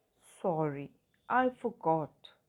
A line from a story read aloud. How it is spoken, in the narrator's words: he says